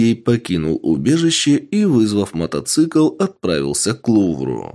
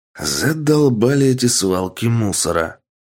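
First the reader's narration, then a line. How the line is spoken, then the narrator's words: Man's grumble. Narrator (Russian): проворчал мужчина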